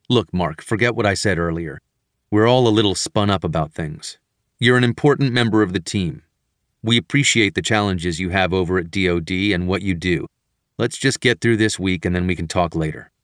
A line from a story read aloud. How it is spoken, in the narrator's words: In a much calmer tone and pace, he said